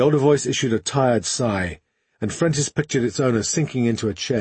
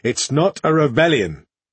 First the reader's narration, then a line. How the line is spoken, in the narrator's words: the older voice snapped, a sudden anger banishing the weariness